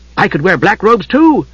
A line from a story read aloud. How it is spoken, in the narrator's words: Tass said eagerly